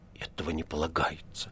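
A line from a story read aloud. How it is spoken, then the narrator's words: Mumbling. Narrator (Russian): бормотал он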